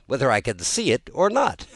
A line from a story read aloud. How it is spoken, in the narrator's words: cried Tweedledum